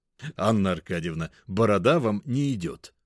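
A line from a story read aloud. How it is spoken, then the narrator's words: Short laugh. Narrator (Russian): хохотнул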